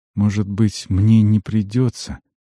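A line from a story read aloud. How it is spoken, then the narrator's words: Quiet. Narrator (Russian): сказал Альмар тихо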